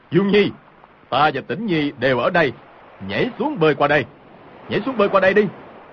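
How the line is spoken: Loud shout. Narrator (Vietnamese): Hồng Thất Công cao giọng quát

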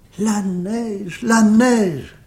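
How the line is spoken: Childlike delighted exclamation, clapping. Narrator (French): s'écria-t-elle, battant des mains comme un enfant

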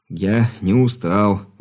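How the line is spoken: Stubborn young man grumbling. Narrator (Russian): упрямо пробурчал невысокий широкоплечий парень

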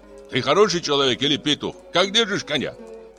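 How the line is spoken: Indignant shout. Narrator (Russian): возмущенно крикнул Бежан

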